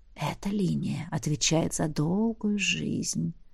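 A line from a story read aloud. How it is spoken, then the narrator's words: Dragon whispering in ear. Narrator (Russian): прошептал дракон, склонившись к моему ушку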